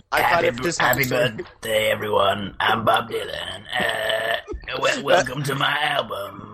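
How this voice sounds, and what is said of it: Imitates a folk singer's voice. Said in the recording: “my new Bob Dylan impression ... That's more like Tom Waits ... Confused between my folk singer impersonations.”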